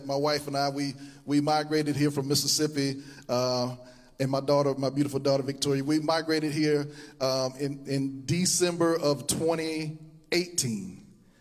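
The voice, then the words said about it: Southern US Mississippi twang. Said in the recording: “my southern twang gets you a little bit, he's from Mississippi”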